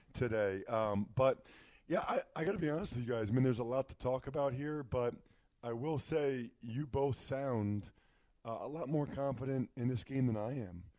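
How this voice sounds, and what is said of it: Deep, husky sick voice. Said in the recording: “you can tell my daughters are sick, so my voice is a little bit different. I'm going with my my sexy Barry White voice”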